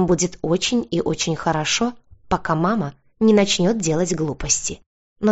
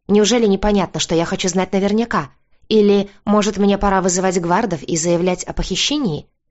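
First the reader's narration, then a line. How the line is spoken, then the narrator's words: Angry question. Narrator (Russian): Зло прищурившись, спросила я его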